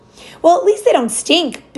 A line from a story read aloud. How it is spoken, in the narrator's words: Big Hugh cried